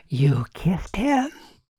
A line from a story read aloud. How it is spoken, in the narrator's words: Aaron said breathlessly